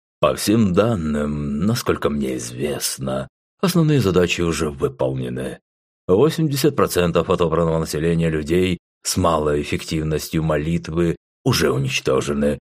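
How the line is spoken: Calm. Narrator (Russian): спокойно произнес Зул

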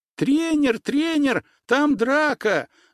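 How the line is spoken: Distant shouting. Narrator (Russian): закричали со стороны лыжной базы

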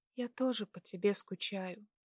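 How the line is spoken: Tearful smiling whisper. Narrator (Russian): улыбнувшись сквозь слезы, прошептала

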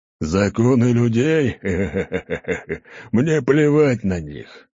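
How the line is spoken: Laughing. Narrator (Russian): рассмеялся Гаур

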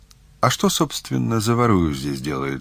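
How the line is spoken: Plain. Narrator (Russian): спросил я

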